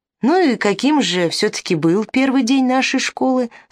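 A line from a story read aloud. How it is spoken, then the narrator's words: Plain. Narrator (Russian): спросил Филарх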